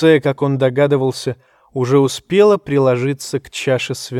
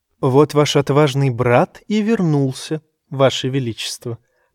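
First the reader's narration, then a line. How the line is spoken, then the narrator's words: Purring. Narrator (Russian): промурлыкала леди Меривезер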